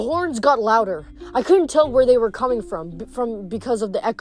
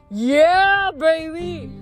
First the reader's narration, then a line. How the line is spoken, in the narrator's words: a voice wailed